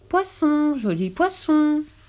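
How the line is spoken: Timid calling voice. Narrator (French): appela-t-il d'une voix timide

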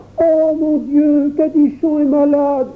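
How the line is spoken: Young boy exclaiming. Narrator (French): s'écria le petit Jacques

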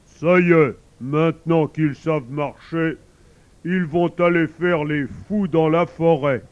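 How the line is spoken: Mother bear growling. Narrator (French): Maman Ours grogne à son tour

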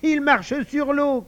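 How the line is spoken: Shouting. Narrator (French): criait Ludovic

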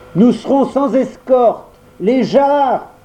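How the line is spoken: Shouted again. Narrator (French): Il cria encore

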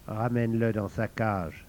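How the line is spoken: Very soft. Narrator (French): dit Ming très doucement

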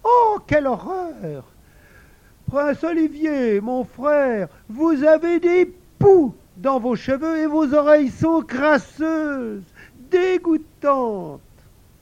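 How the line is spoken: Exclaiming. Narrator (French): la princesse Marinette s'écria

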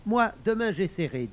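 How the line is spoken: Plain. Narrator (French): dit Faucon

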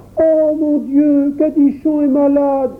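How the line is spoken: Child exclaiming. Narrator (French): s'écria le petit Jacques

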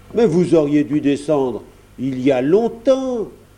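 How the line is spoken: Exclaimed. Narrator (French): s'exclame-t-il

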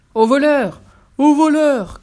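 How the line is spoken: Ogre shouting. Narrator (French): criait l'ogre

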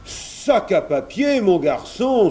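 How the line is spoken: Exclaimed. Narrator (French): s'écria Kersak

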